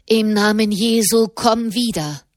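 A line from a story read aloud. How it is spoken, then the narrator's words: Loud commanding voice. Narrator (German): befahl er mit lauter Stimme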